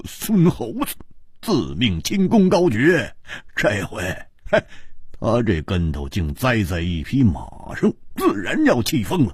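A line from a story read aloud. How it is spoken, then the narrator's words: Bursting into laughter. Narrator (Chinese): 胡铁花失笑道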